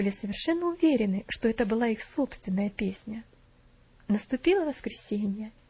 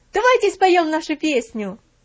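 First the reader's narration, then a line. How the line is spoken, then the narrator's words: Shouted. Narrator (Russian): один, который кричал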